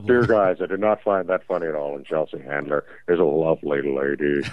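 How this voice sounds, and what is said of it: Deep-voiced woman character. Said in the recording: “some lady with a deep voice driving to work right now”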